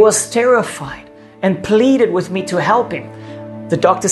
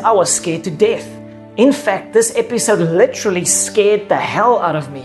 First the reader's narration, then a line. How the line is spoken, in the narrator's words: he says